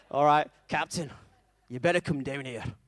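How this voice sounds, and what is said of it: Poor put-on Scottish accent. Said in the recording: “I can't do a Scottish accent, but bear with me... It's getting worse, is my accent. I can see people in the front row cringing already.”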